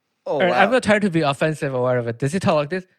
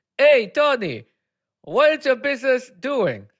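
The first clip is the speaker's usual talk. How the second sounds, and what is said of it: Exaggerated put-on Italian accent. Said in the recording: “A little less Italian. ... so it's not a scene out of The Godfather.”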